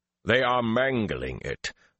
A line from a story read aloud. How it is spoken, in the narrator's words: Ruark growled